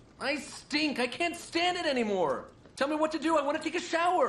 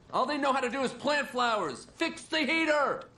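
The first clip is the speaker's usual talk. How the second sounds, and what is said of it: Yelling loudly. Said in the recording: “don't yell, they'll all hear you.”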